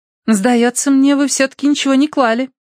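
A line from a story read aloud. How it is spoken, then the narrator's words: Concluding. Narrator (Russian): заключила Камелия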